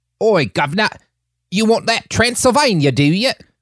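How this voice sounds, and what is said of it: Put-on English accent. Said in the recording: “That's English. ... I'm doing an English accent”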